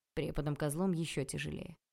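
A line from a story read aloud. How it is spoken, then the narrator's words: Sudden snort. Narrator (Russian): хмыкнул вдруг он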